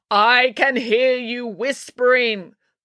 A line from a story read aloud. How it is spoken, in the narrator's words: bellowed the voice of Professor Maynard